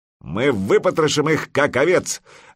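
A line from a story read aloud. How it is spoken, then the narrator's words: Fierce bark. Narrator (Russian): рявкнул медвежья лапа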